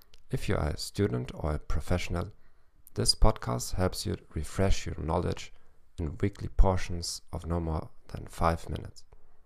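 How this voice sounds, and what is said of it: German-accented English. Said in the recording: “with a German accent. ... I'm not an expert in English, though.”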